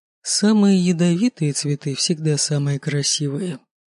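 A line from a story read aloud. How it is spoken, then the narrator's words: Muffled, father's voice. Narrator (Russian): глухо говорит отец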